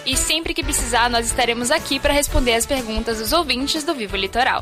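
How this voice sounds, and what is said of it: Bahian Brazilian Portuguese accent. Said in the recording (Portuguese): “E esse sotaque? ... Eu sou da Bahia, de Salvador.”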